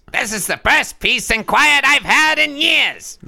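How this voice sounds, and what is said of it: Gilbert Gottfried impression. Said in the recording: “Now imagine that in a Gilbert Gottfried voice. ... That's pretty good. ... It's a hard voice to do.”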